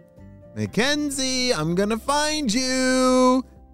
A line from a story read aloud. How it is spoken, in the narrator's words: he shouted